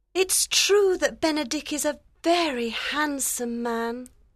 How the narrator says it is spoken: said softly

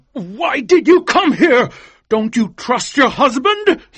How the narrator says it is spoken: he cried angrily

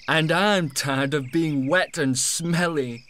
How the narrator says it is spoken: laughed Matt

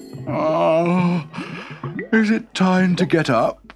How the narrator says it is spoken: he yawned

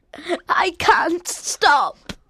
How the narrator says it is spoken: Colin sobbed

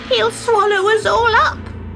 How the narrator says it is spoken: wailed Glint

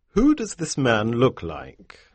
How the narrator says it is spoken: asked

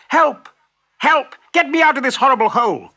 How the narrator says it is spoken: yelled

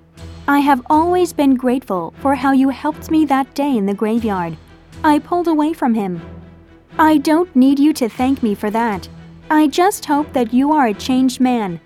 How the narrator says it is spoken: said harshly

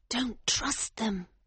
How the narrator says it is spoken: she whispered urgently

